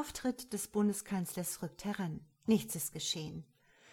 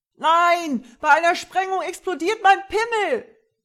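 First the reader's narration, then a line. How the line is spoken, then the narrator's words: Bellowing. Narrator (German): Vierkant brüllte los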